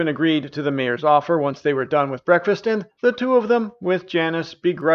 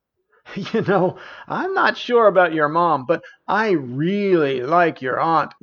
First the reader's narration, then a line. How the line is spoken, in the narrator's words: laughed Janice